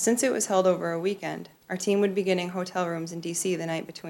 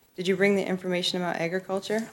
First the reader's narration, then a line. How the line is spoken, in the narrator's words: asked nervously